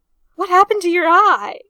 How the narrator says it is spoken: Arthur cried

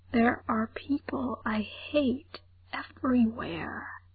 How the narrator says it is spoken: he whispered to Frank

